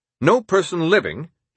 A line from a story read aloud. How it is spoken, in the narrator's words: he curtly informed the German ambassador